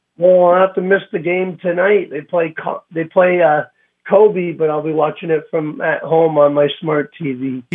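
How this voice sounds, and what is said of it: Congested voice from a cold. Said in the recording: “Sound a little under the weather there... He sounds like a different person... I'm under the weather... Just a bad cold.”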